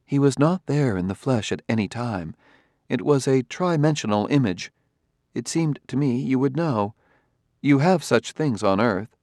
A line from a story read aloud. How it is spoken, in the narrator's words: Daniil said calmly